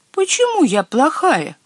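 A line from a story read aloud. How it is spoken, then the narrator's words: Timid little squeak. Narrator (Russian): робко пискнула маленькая Баба-Яга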